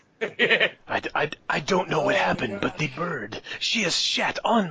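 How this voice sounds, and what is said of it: Antonio Banderas impression. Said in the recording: “I could tell the bird story as Antonio Banderas ... accents that you could do right ... this is the one ... Antonio ... Banderas”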